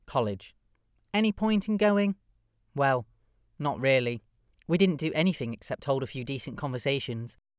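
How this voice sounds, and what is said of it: Old-fashioned gentleman's voice. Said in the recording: “Why do you talk like an old-fashioned gentleman?”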